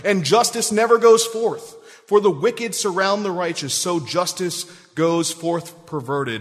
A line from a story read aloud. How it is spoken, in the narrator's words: Habakkuk cried